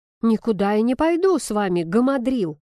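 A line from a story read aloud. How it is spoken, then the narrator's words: Indignant exhale. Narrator (Russian): выдыхаю возмущенно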